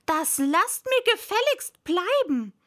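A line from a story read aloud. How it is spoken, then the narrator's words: Shouted out. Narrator (German): sagte sie bei sich und schrie hinaus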